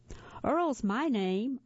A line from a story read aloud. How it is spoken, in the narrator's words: Earl shouted